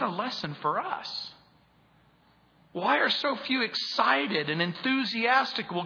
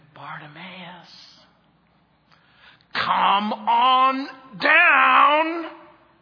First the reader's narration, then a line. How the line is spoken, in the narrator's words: the voices have screamed